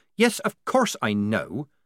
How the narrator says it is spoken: said Polly irritably

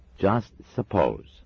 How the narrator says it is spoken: said Adam slowly

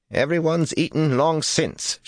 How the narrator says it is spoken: she snapped

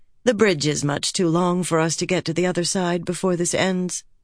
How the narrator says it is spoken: Fael said calmly

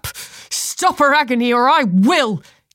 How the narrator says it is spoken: Kinley shouted

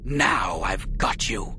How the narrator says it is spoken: she snarled

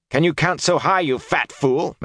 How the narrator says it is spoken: Matt snapped

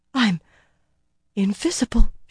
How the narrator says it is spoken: she breathed

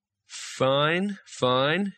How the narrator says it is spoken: he said slowly

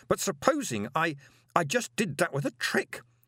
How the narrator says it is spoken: said Moist desperately

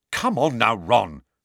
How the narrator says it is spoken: said Angelina crossly

